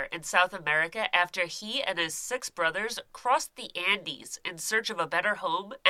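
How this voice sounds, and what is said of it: Nasal, congested voice. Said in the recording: “Don't mind my voice. My allergies are so out of control that once an hour, my nose just becomes completely impassable ... if I sound nasally. I just have no breath available through my nose”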